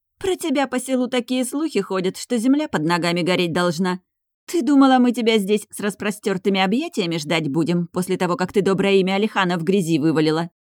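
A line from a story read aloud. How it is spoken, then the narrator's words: Sharp interruption. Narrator (Russian): она резко перебивает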